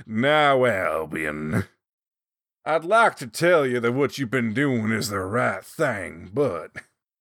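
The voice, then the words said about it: Rough imitation of rich Southern Appalachian voice. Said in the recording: “he has this incredibly rich, like, Southern Appalachian voice that just, it's so good and so rich ... It's probably a terrible impression”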